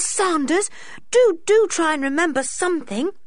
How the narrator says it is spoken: begged Dick

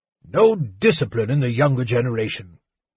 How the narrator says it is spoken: Fizban grumbled

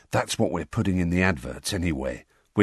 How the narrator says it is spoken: whispered Fred

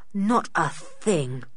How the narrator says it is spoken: said Julian rather gloomily

